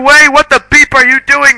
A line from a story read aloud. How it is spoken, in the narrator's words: Rumbridge shouted angrily